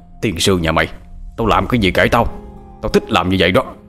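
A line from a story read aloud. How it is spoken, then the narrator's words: Shouting. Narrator (Vietnamese): Lão Tuất quát lên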